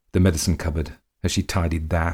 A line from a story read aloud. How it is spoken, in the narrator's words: he muttered